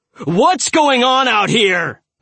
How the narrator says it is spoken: Miller yelled

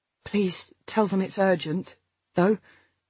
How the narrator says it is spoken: I said wearily

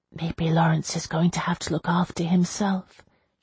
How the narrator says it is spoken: she whispered

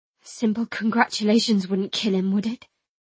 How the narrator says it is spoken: I muttered

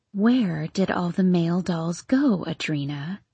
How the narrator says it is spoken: She whispered in the weirdest kind of knowing voice

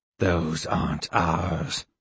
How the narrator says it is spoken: Skemma said to Two in a low voice

